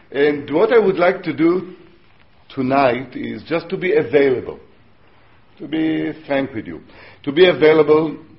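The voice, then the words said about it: Non-native English accent. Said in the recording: “I speak Yiblish, which is a mixture of English and... in Hebrew, so you will excuse my accent. I don't have a heavy African accent.”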